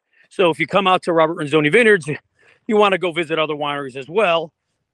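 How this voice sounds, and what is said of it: Slightly out of breath. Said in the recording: “I'm a little out of breath ... I just went up a big hill”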